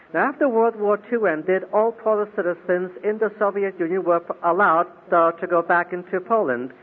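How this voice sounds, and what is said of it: Russian and Polish accented English. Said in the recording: “I was born in Siberia during the war in 1943, and that should help to explain one segment of the accent you're listening to this morning.”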